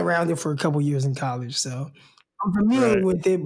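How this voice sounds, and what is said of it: Usual voice. Nothing is said of it.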